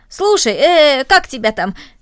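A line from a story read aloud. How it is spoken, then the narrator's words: Sudden cheerful suggestion. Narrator (Russian): Вдруг Рома весело предложил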